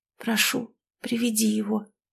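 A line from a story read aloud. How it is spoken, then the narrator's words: Quiet request. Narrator (Russian): попросила она тихо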